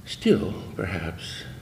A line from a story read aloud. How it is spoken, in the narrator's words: he said softly in the bare hall